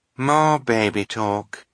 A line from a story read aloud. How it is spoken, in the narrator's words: said the other white-faced woman with a sigh